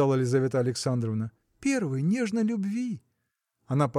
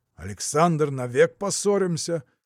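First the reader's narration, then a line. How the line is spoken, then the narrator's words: Angry shout. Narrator (Russian): закричал Петр Иванович сердито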